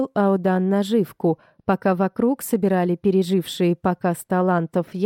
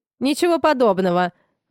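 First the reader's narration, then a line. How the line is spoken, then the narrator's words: Flaring, angry and proud. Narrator (Russian): взвился Фарлей и добавил зло и гордо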